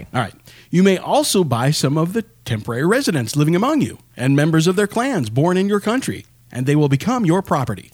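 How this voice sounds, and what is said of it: Announcer-style radio voice. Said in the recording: “That almost sounded like a commercial. ... I shouldn't use my radio voice”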